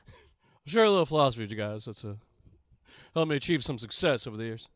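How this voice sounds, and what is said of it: Imitates another person's voice. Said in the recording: “my Rock impersonation ... it's kind of like Elvis meets Barack Obama”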